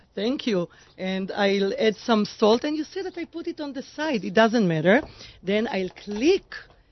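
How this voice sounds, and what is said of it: Foreign accent. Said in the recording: “a foreigner, with the accent”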